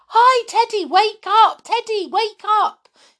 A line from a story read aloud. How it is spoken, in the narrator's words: shouted in excitement